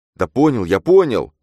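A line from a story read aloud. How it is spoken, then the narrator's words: Shouted. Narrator (Russian): крикнул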